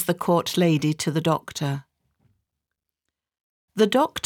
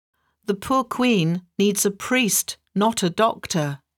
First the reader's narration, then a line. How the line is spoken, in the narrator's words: he says